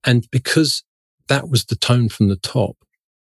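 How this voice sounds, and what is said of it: Usual voice. Nothing is said of it.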